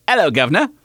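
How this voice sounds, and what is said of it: Attempted British accent. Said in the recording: “read the rest of this with a British accent ... That was better.”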